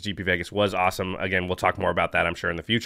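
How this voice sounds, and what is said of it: Deeper, rough, tired sick voice. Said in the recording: “my voice is maybe sounding a little bit deeper, a little bit more tough and rugged ... I'm super exhausted and a little bit getting sick”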